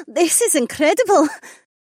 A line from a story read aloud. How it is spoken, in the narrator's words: Amarla giggled